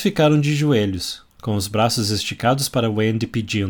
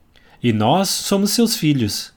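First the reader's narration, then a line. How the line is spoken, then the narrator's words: Twins exclaiming together. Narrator (Portuguese): exclamaram os gêmeos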